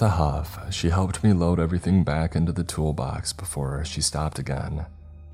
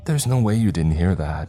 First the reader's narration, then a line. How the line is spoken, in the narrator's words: she exclaimed, her movements animated